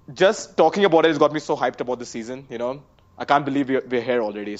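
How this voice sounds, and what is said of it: Indian English accent. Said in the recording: “three dudes in an Indian accent”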